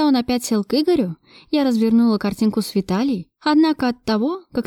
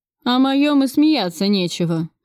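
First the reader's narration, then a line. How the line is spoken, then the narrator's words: Grumbling mutter. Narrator (Russian): пробурчал Кравцов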